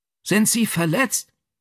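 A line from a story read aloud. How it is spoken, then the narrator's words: Calling. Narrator (German): rief er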